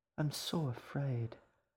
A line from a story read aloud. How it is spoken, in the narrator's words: the fox sighed, not sounding very afraid at all